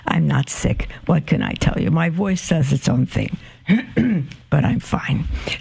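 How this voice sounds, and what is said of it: Slightly hoarse voice. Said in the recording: “I sound a little hoarse.”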